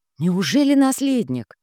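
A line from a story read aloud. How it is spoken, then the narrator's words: Breathed out. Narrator (Russian): выдохнула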